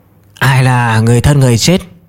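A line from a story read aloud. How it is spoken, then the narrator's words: Hoarse old woman. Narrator (Vietnamese): Bà lão khàn khàn nói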